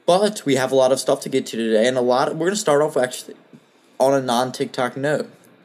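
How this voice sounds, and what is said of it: Congested, slightly sore-throated voice. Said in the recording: “I've had a fucking bad cold ... sore throat, congestion, all that ... if my voice is a little different, just know that's it”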